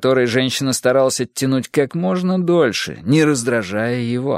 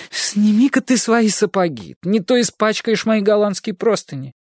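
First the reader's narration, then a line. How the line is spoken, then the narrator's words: Passionate pleading exclamation. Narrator (Russian): потрясенная страстью, умоляюще воскликнула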